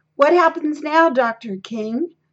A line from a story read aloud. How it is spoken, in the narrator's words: a reporter called out